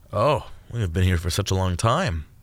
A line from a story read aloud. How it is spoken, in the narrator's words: Gatekeeper Lindsay sighed